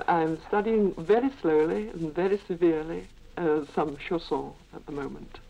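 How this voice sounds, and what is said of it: Lancashire English accent. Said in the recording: “My Lancashire accent protruding”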